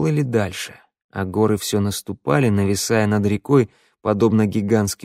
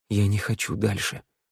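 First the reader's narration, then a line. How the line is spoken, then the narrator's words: Whispered. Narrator (Russian): зашептал Тео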